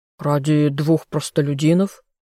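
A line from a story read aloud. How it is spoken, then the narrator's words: Smirking grunt. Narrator (Russian): хмыкнул еще кто-то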